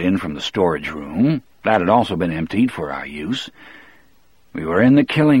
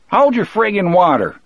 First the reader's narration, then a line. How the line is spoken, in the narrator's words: Harry yelled back